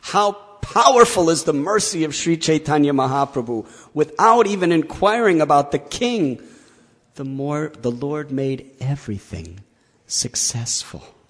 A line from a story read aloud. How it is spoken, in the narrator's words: Kaviraj Goswami exclaims